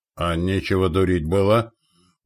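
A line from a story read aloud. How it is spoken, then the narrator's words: Grumbled. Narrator (Russian): буркнул Митяй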